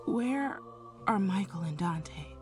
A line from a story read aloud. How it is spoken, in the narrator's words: I whispered